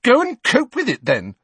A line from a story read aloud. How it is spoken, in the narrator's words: Cho said furiously